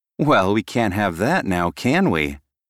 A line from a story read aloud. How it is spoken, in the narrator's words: I chuckled